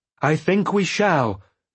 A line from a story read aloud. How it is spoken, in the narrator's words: I shouted at him, for a wild chorus of dragons trumpeting now drowned our voices